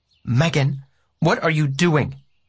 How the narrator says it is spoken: She asked sharply

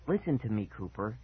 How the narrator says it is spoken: she whispered mysteriously

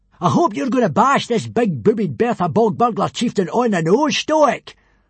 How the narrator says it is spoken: roared Baggy Bum the Beer Belly

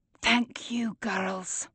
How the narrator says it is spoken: His eyes glistening with tears, whispers

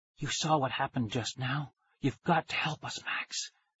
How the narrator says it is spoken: Nikki whispered

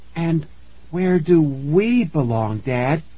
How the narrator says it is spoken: Tara asked in a trembling voice

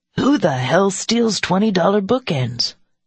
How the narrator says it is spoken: he asked indignantly

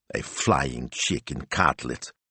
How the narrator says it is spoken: Signor Speranza muttered

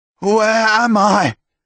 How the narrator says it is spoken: Tomas shouted from the bed, his eyes wild

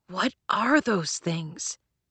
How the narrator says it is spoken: Leto hissed to Brevity

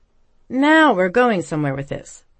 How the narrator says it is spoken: Pippa exclaimed

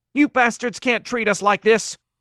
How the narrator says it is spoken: a woman screamed

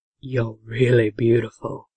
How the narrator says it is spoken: he said in a low tone

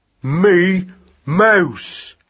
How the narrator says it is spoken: he said gruffly

